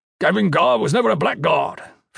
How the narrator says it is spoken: Fisk snapped

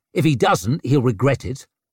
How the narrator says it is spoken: snapped Leo

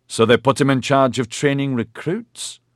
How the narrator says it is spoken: Maxon exclaimed

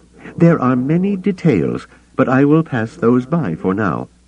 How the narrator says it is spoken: he added hastily

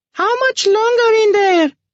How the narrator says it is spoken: a woman squealed impatiently in a high falsetto

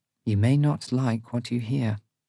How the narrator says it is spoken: she says softly

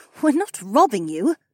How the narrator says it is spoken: Becca snorted

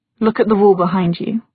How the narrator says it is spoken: he said in a flat voice

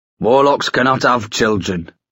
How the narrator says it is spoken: snarled Starkweather

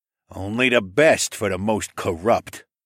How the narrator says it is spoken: Saul grumbled

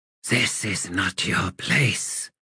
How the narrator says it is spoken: she whispered

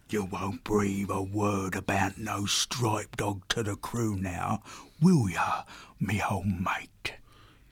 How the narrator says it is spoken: Ball held him closer, whispering in his ear

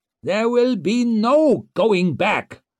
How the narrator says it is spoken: shouted Kernsbeck

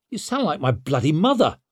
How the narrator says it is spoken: snapped Leo

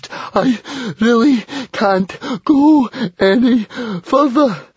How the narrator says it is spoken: Fishlegs came to a panting halt and gasped

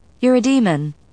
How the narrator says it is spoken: I said unnecessarily

